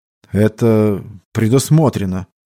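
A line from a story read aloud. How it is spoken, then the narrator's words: Uncertain answer. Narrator (Russian): неуверенно ответил все тот же волкоголовый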